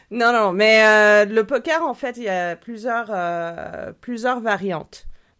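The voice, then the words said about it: Belgian or Swiss French accent. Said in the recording (French): “elle a un accent rigolo. Elle a un accent rigolo ... accent belge ... Un, accent, belge ou suisse, ça dépend des gens.”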